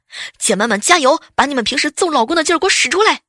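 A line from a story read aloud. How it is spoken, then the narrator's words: Urgent loud shout. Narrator (Chinese): 女领导急了，扯开嗓门就喊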